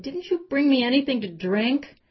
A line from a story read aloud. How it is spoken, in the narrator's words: He complained about how hot he was and whined